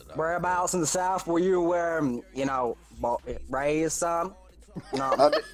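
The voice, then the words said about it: Poor imitation of Southern US accent. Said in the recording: “That was a terrible fucking Southern impression.”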